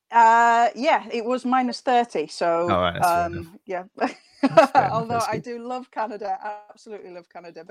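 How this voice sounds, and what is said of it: Northern English accent. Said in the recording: “You can tell from my accent, I am even further north.”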